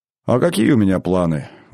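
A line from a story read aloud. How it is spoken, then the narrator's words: Sighing. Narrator (Russian): вздохнул Григорий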